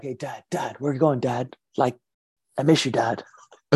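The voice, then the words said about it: Old skater dude voice. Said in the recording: “voice is kind of like this old skater dude”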